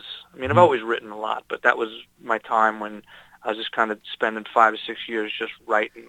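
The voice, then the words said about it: Slight New York accent. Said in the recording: “you still got a little New York accent in you”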